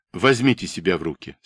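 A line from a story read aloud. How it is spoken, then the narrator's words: Calm command, choked-up. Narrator (Russian): спокойно приказал Чумаков, чувствуя, как к горлу подкатывается комок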